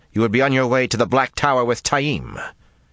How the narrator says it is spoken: Rand snapped

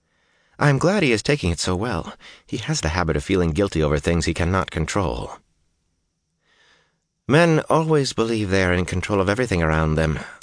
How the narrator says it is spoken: Avienda replied

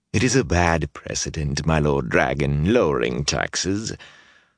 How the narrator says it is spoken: a lean, gray-haired man said in an oily voice

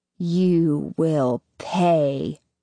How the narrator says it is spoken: she says finally, her voice filled with hate

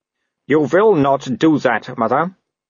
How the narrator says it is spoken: Wolf grunted

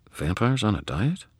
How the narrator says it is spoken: Susan murmured beneath her breath

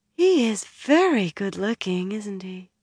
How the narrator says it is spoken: She said dreamily

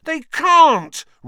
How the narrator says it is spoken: Ron howled

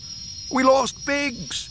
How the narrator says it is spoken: he yelled toward his own pickup

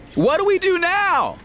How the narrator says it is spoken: Egan shouted

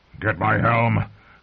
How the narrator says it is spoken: Clegane growled at her

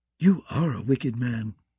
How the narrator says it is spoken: the queen whispered

